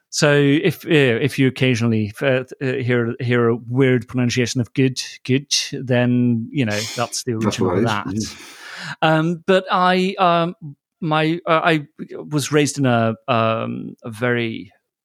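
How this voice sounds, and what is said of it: Icelandic speaker with partly British accent. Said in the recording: “I'm Icelandic, but as you can tell from the sort of half-baked English accent I have, that I've spent quite a bit of time in the UK”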